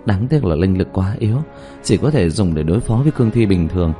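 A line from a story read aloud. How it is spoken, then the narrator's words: Sigh. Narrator (Vietnamese): Dương Tư Linh thở dài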